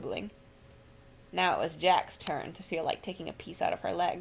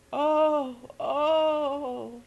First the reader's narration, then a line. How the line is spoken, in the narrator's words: moaned